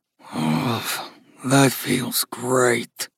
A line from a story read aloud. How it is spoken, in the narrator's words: Gus growled